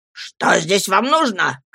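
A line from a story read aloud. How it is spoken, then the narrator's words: Old man shouting fiercely. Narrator (Russian): крикнул свирепым голосом старик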